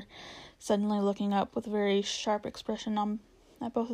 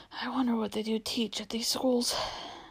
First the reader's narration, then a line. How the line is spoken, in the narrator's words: said the professor, while he muttered to himself